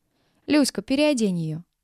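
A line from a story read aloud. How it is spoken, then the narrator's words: Calm command, cook. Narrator (Russian): спокойно отдавала команду повариха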